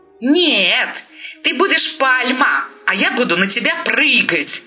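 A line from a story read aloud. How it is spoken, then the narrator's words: Delighted squeal. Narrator (Russian): восторженно взвизгнула рубашка-мартышка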